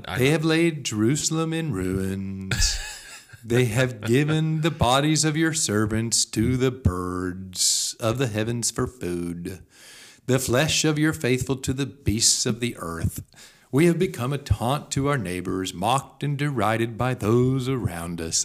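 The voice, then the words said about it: Somber Eeyore-like voice. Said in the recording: “It's a bit Eeyore-like... Can you do an Eeyore voice?... I don't know how good of an Eeyore voice that is, but I mean, it's really, it's got that tone to it.”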